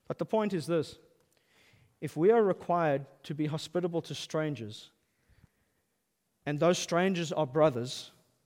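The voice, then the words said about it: Speaker's noticeable accent. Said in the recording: “Do you notice I have an accent?”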